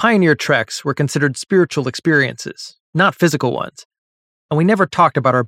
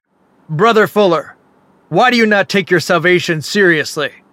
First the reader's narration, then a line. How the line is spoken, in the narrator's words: lunged forward to stand over me and boomed